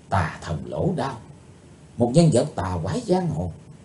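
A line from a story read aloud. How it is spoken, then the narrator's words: Soft murmur. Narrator (Vietnamese): Chí Tôn khẽ nói thầm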